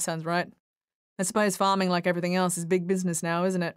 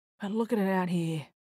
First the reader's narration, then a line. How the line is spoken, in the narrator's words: Frank said with a sigh